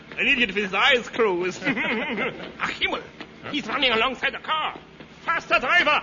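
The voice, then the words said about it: Phony German accent. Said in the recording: “phony German accent”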